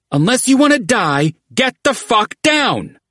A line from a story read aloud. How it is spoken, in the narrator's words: Fetching hollered